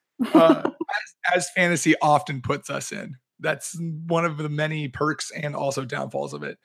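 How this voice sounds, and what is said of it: Hoarse, strained voice. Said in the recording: “apologize for my voice... which involved a lot of shouting and screaming... a little hoarse”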